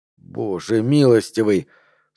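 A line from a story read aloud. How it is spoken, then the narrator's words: Breathless exclamation. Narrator (Russian): снова выдохнул Гард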